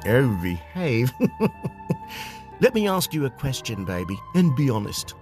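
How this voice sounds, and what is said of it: Austin Powers character voice. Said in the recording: “Austin Powers impersonator”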